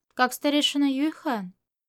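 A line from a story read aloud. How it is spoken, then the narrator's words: Dry reply. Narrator (Russian): Чуванин ответил сухо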